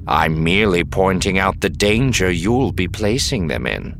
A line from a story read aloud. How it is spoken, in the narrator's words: Serpa said evenly